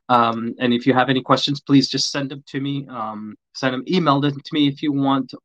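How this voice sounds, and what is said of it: Hoarse, strained, losing voice. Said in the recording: “lose my voice”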